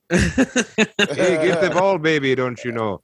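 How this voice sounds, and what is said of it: Put-on Minnesotan accent, slow and low. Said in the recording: “our accents were dog shit ... You now talk slow accent, and low ... Imagine that accent's”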